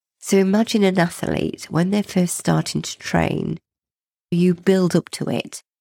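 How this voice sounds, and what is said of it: Congested, sniffly voice. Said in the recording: “I do apologize if I'm sniffing, I've got a cold, so trying not to sniff in between chatting”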